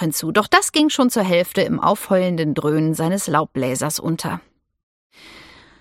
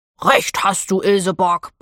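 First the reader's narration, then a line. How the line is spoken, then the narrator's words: Grumble. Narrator (German): brummte Theo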